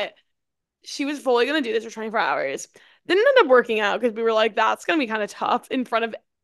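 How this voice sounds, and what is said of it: Usual voice. Nothing is said of it.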